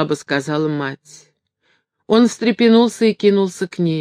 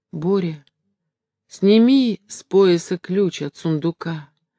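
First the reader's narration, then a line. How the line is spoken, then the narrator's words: Sick, barely audible mumble. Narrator (Russian): едва внятно пробормотала больная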